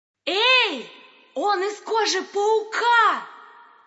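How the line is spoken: Shouting. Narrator (Russian): крикнула

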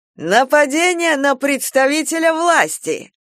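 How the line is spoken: Gleeful bark. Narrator (Russian): радостно гаркнул Дубовик

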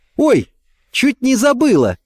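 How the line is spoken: Exclaiming. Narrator (Russian): воскликнула

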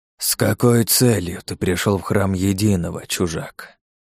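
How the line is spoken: Hoarse, tired priest. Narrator (Russian): Голос жреца был хриплым и каким-то уставшим

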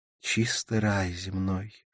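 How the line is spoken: Sighing. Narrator (Russian): вздохнула Карла

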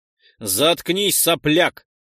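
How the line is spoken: Barking. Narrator (Russian): рявкнул тот

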